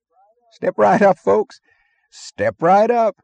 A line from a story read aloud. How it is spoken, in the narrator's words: the barker was yelling cheerfully